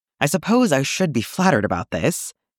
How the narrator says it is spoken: Kallus groaned

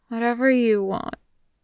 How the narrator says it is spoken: Dazai slurs

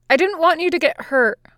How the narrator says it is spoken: Luffy blurts

